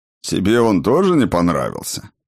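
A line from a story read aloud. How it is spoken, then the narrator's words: Short laugh. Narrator (Russian): хохотнул Сфайрат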